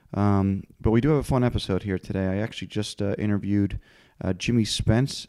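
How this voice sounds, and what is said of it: Congested voice with sore throat. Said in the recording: “I have a little bit of a head cold. I have a sore throat”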